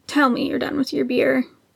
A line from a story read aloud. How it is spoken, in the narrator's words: croaked